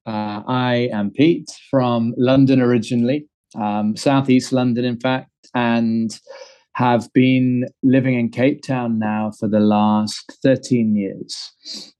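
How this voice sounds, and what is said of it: Slightly mixed London-Cape Town accent. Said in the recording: “Londoner born and bred ... Cape Town, hence the slightly mixed up accent.”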